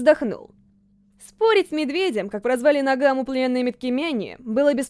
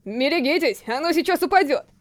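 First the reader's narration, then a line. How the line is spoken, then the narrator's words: Shouted warning. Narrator (Russian): крикнул он стоявшим внизу рабам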